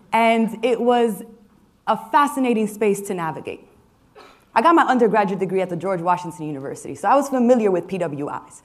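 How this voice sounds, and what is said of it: New York City accent. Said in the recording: “I was born and raised in New York City. You might be able to tell from my accent.”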